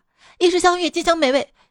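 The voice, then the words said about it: Shouting loudly. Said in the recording (Chinese): “别喊那么大声”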